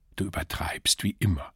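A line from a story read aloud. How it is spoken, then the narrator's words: Quiet. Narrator (German): sagte leise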